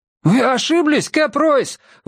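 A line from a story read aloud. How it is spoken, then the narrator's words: Shouted. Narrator (Russian): выкрикнул Абрам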